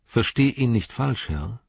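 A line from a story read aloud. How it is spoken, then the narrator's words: Plain. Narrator (German): sagte Eowyn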